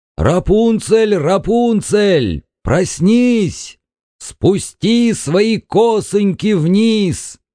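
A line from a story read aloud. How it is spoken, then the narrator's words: Shouted. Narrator (Russian): крикнул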